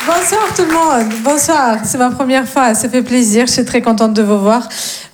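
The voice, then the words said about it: Slight sing-song Russian accent. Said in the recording (French): “j'ai un petit accent, mais il est très mignon, très chantant... je viens de Russie”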